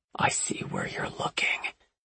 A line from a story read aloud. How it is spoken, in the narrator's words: whispered